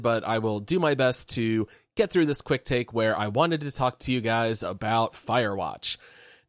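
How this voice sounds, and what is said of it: Congested voice. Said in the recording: “I am a little bit under the weather here, so my voice might sound a little bit congested”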